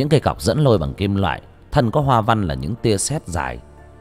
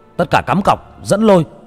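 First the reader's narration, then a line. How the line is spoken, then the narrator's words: Shouted. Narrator (Vietnamese): Người ngồi ở giữa hét lên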